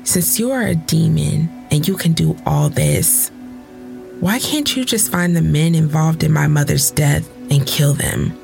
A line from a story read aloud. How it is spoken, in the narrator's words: Velis sighs